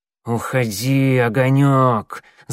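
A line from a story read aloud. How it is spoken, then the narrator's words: Hissing. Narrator (Russian): зашипела Щербатая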